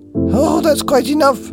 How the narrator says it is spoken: snapped Grandma Josephine

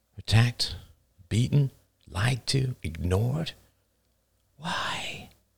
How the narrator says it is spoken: whispered Emily

